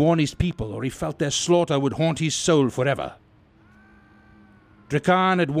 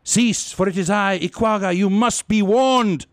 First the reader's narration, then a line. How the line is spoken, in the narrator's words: With sudden effect, a warrior raised his voice